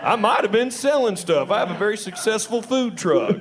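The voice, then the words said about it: Speaks with a regional accent. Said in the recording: “Don't assume because of my accent ... Y'all are judging me by my voice right now.”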